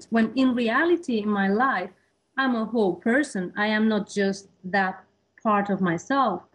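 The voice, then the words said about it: Hispanic-accented English. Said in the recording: “a Hispanic person ... because of my accent.”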